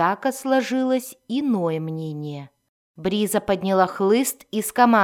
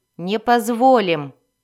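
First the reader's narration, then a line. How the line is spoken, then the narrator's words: Snapping retort. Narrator (Russian): огрызнулась Бриза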